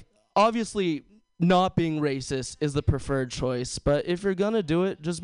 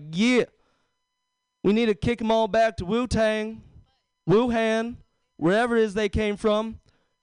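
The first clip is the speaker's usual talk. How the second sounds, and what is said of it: Put-on redneck accent. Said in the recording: “this nondescript redneck accent”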